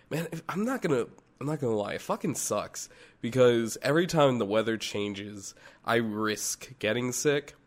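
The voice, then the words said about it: Hoarse, worn-out congested voice. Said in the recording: “my voice is still a bit shot. I'm still a little bit under the weather ... the last of the sinus infection”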